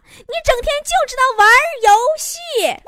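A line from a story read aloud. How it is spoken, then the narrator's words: Girl shouting. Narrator (Chinese): 那女孩搁那喊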